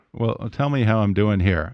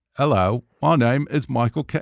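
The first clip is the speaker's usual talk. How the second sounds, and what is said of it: Poor Michael Caine impression. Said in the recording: “Oh, that's a terrible one. ... You nearly got it.”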